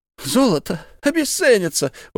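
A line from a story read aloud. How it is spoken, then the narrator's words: Exclaiming. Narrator (Russian): воскликнул Исаак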